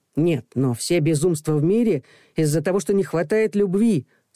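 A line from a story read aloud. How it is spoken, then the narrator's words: Plain. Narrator (Russian): сказал Макар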